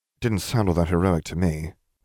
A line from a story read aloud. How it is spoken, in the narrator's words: Nev murmured